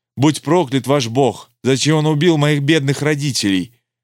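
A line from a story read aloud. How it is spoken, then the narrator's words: Woman sobbing, choking on words. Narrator (Russian): баба зарыдала, захлебываясь словами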